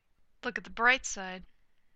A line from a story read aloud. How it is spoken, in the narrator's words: Tony murmurs